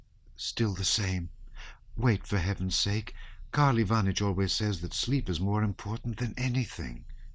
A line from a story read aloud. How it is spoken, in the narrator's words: whispered Princess Mary with a sigh